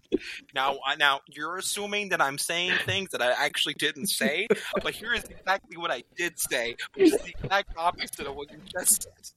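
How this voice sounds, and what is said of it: Imitates another person's voice. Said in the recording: “That was pretty spot on, though. I love that impression ... That was spot on.”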